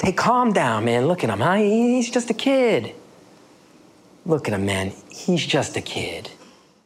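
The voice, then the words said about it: North Jersey Italian-American male accent. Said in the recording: “another voice, North Jersey, Italian-American male accent.”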